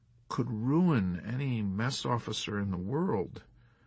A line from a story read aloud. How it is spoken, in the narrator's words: Milo mumbled despondently